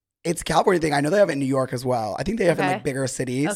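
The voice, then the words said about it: Hoarse, nearly lost voice. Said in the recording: “My voice is gone. ... it's sexy. ... It makes me sound a little bit straighter ... I feel like it's getting worse throughout the day.”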